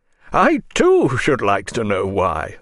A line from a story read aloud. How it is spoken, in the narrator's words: Fanarin said, laughing